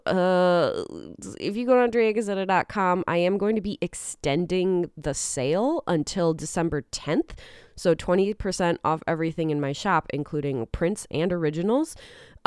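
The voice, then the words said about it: Sick, ill-sounding voice. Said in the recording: “I don't know if you can tell by my voice, but I'm hella sick.”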